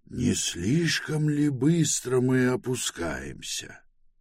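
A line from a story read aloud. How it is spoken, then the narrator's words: Quiet question. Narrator (Russian): тихо спросил Пилород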